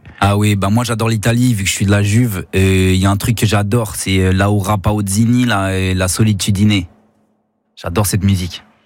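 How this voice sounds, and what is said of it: Italian accent speaking French. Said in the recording (French): “J'aime beaucoup votre accent italien.”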